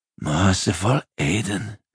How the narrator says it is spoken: breathed Hengfisk

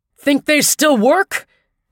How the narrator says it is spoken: Tappan shouted

